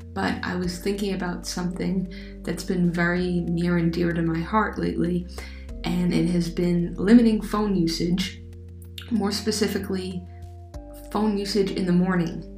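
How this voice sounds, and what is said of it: Scratchy voice from a cold. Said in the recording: “my voice is a bit scratchy. I have a bit of a cold”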